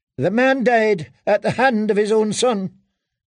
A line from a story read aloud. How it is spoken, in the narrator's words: Ilaria snapped back